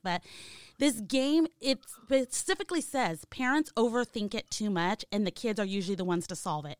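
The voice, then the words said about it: Hoarse, strained voice. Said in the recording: “excuse me, I'm losing my voice”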